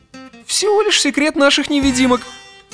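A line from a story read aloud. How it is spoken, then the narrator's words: Triumphant giggle. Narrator (Russian): торжествующе хихикнув, ответил Арнольд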